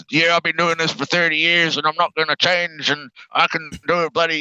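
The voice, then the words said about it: Put-on American accent. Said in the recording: “that was a perfect American accent, too.”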